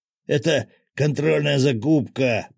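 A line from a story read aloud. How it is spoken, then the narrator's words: Hoarse rasp. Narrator (Russian): прохрипел предатель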